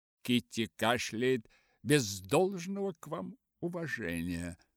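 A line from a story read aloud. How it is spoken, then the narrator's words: Plain. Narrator (Russian): сказал отец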